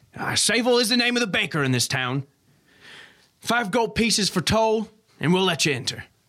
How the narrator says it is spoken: they finally shout back down to you

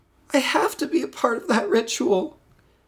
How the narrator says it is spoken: Sadie whimpered

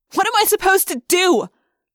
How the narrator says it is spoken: I yelled suddenly, shocking myself

